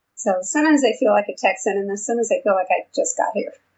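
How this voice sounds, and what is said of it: New York accent. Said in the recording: “as you can probably tell from my accent, I'm from New York originally”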